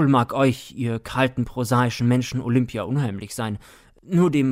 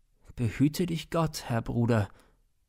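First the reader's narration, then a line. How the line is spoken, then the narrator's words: Very gentle, almost wistful. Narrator (German): sagte Siegmund sehr sanft, beinahe wehmütig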